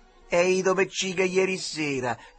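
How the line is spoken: Shout. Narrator (Italian): gridò al Duccio

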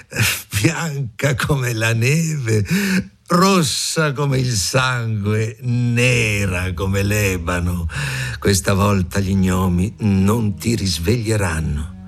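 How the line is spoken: Cruel queen, laughing loudly. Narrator (Italian): La regina con occhio crudele, ridendo rumorosamente, disse

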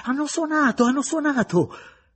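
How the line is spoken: Boy's joyful shout. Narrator (Italian): Uno dei ragazzi gridò gioiosamente

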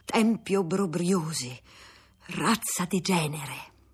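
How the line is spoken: Breathless, bitterly contemptuous. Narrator (Italian): Quando calmossi, disse con voce affannata, ma con accento di amaro disprezzo

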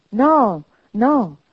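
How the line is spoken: Man's exclamation. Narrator (Italian): esclamò Scrooge

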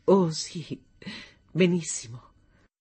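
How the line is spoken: Long soft sigh. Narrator (Italian): trasse un sospiro soffice e lungo

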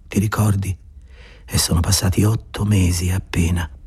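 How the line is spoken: Murmured. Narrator (Italian): mormorò

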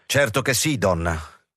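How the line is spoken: Firm confirmation. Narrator (Italian): Ed egli confermò in tono deciso

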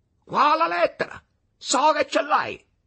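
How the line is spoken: Sudden shout, changed tone. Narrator (Italian): cambiando aria e tono, gli gridò

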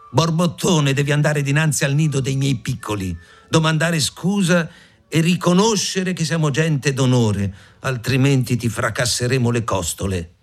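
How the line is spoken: Small bird shouting. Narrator (Italian): Lo scricciolo gridò

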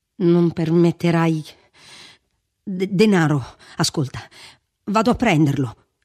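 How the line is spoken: Shaken, stammering speech. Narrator (Italian): disse vacillando, tornandogli sulle labbra quel ridicolo balbettio di quando era sconvolto

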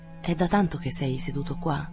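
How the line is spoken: Murmured question. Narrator (Italian): Domandò mormorando

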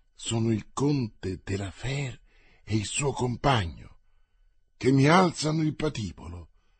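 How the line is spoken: Even quieter, leaning close. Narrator (Italian): riprese Parri, anche più piano e chinandosi verso il suo signore

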